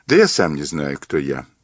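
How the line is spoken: Sighing. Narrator (Russian): сказал Мазур, вздохнув

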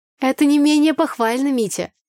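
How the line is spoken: Ringing laugh. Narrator (Russian): звонко рассмеялась Тамара Арсеньевна

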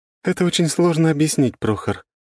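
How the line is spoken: Heavy sigh. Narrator (Russian): тяжело вздохнула Катя

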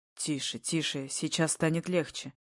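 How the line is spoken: Whisper in ear. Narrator (Russian): шепчет мне на ухо

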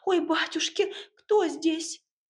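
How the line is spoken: Frightened cry. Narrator (Russian): девушка испуганно вскрикнула

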